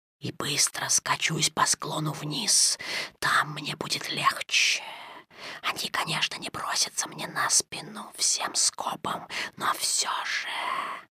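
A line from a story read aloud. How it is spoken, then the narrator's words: Whispering. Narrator (Russian): шепнул Каа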